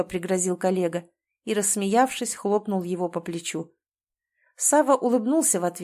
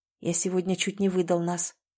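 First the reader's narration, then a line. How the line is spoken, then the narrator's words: Quiet confession. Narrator (Russian): тихо признался он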